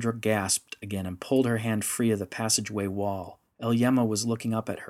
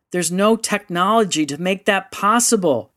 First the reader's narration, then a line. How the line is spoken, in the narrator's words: yelled, her voice rising